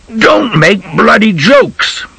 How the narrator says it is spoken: Bog screamed

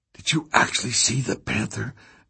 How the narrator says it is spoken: Nick whispered

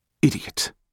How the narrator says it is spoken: Jack whispered

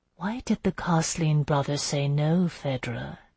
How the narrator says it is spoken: she murmured

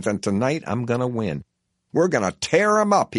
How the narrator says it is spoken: he hollers humorously

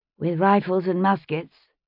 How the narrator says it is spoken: she said rather dryly

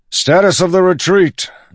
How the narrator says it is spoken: Dalinar bellowed

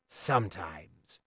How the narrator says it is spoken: grumbled Chade

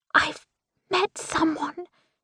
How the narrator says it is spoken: she whispers

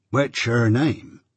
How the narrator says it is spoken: said Joe gravely

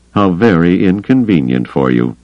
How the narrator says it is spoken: he said dryly

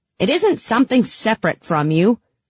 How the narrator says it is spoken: Bagra snapped

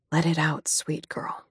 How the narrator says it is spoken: I murmured

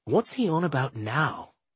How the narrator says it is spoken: Sadie whispered to me

